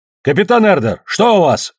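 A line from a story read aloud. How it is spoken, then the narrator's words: Barked shout. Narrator (Russian): гаркнул Ильич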